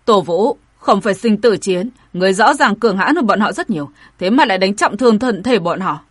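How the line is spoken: Angry shout. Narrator (Vietnamese): Vẻ mặt người nọ rất khó coi, quát

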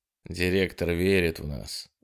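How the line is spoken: Soft, aloud. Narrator (Russian): мягко сказал он вслух

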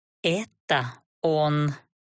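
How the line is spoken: Strangled growl. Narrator (Russian): сдавленно прорычала я

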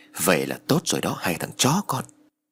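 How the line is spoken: Hissed through teeth. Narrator (Vietnamese): Lâm rít qua kẽ răng rồi nói

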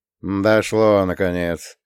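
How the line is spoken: Grumbling. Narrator (Russian): заворчал Володя

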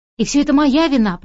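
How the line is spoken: Cracked trembling voice. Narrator (Russian): проговорила я надтреснутым и дрожащим голосом

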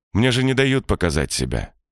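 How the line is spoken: Calm after long pause. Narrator (Russian): Володя долго молчал и уже совершенно спокойно говорит

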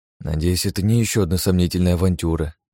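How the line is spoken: Sigh. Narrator (Russian): вздохнул я

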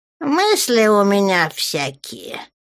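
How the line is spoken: Grumbling. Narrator (Russian): проворчал Крием

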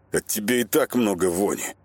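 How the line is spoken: Through gritted teeth. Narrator (Russian): процедил сквозь зубы шаман

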